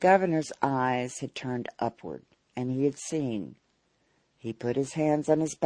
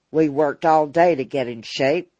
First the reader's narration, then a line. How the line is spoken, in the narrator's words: grumbled Harry Weston